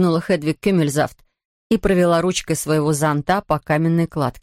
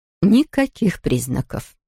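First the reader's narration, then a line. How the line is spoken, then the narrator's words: Quiet. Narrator (Russian): тихо добавила Хедвиг Кюмельзавт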